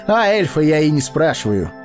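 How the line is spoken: Laughing. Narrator (Russian): засмеялся Арагорн

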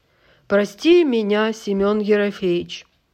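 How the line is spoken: Loud, deliberate enunciation. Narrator (Russian): Так же раздельно и громко выговорил

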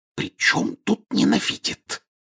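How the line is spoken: Angry whisper. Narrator (Russian): сердитым шепотом возразила миссис Уизли

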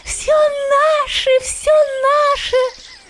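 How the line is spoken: Squeaking voices. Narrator (Russian): пищали

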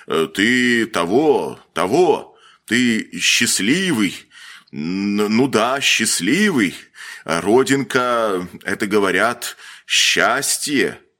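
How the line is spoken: Stammering, shell-shocked man. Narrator (Russian): Тот, заикаясь и кривя контуженную голову, сказал

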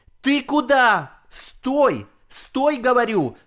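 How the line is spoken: Grandmother shouting. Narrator (Russian): кричала бабушка

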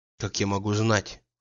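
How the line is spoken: Quiet. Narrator (Russian): отвечала она тихо

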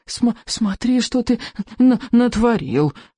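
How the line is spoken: Groaning. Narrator (Russian): простонал Беззубик

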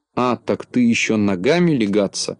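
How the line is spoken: Grumbling. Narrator (Russian): проворчал Незнайка

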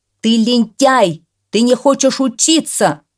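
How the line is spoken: Shout. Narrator (Russian): крикнул он

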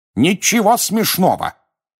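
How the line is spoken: Sharp scolding shout. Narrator (Russian): прикрикнул на них мистер Уизли

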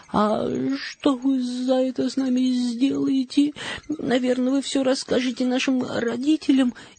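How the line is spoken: Frightened question. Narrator (Russian): испуганно спросила Мари

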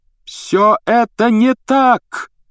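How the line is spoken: Shouting. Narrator (Russian): закричал Гарри

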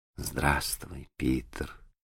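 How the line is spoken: Quiet. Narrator (Russian): ответила она тихо

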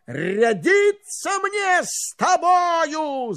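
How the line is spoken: Shouting. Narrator (Russian): закричал он

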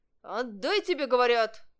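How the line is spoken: Shout. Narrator (Russian): кричал метеоролог

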